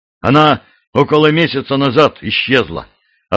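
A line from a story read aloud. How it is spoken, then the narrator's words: Curt, clipped male speech. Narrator (Russian): отрывисто заговорил он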